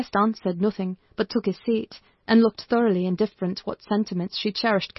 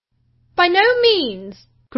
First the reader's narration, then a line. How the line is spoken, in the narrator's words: cried Mrs